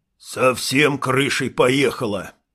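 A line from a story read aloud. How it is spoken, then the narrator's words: Muttered under breath. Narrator (Russian): пробурчал Конан себе под нос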